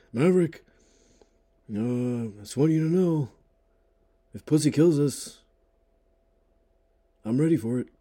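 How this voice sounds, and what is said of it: Imitates another person's voice. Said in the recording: “I'm curious what you think of my impression.”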